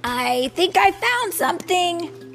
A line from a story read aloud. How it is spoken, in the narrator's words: he shouted